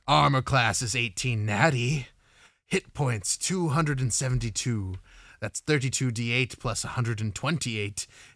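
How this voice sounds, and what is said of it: Spooky character voice. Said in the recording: “I'm going to do my stat block read in a spooky voice.”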